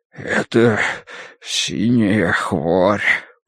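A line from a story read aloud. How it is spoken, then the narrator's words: Wheezing. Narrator (Russian): просипел он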